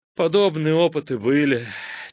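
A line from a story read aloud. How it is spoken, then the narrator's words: Heavy sigh. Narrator (Russian): тяжко вздохнул академик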